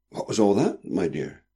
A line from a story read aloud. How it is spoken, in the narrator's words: said anxiously